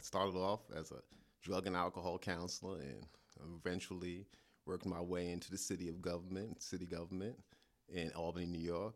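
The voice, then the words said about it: New York accent. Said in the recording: “I'm from New York originally, you can probably tell from the accent.”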